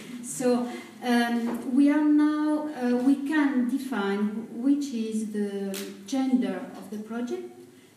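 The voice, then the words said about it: Speaks English with a foreign accent. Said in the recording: “excuse my accent, I'm sorry.”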